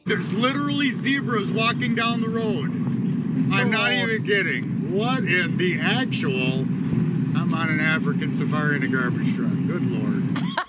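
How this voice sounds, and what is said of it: Strong northern Wisconsin accent. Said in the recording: “The accent is the best. ... I love a straight up northern Wisconsin accent.”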